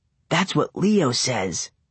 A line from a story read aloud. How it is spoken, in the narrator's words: I whispered back